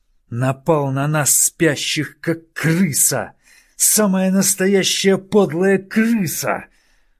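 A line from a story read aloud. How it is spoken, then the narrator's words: Hiss. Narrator (Russian): прошипел Нит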